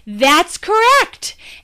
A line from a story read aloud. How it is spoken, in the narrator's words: Mills exclaimed